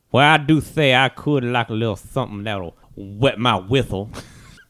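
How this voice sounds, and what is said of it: Unusual put-on character accent. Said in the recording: “that is a different type of accent.”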